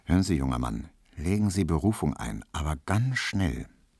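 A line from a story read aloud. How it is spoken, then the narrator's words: Very quiet. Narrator (German): sagte im Vorbeigehen so ganz leise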